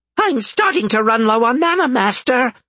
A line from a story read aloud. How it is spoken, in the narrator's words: the imp squeaked